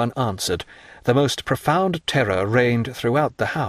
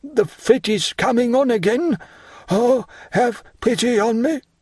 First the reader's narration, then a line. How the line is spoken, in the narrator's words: cried Barras